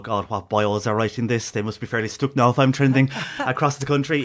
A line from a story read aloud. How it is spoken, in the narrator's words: He would have laughed out loud, first of all, and go